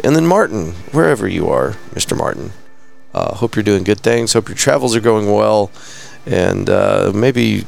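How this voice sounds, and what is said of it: Worn, hoarse voice. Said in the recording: “I can tell my voice is kind of going.”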